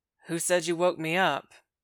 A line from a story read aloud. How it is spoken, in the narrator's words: Buck says in a tight monotone